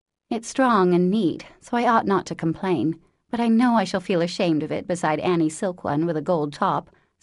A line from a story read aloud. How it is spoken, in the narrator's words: sighed Meg